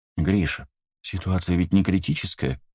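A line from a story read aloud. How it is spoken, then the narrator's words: Gentle. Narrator (Russian): мягко сказала Таис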